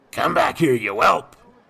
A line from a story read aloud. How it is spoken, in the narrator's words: the gentleman croaked